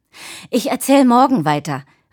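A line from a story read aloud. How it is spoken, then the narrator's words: Calling out while running off. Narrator (German): rief sie, als sie schon um die Ecke hechtete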